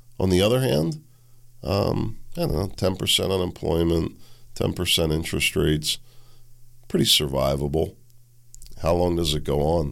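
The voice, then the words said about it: Hoarse, slightly nasal voice. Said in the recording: “losing my voice. I still got a little nasally throat thing going on from the COVID.”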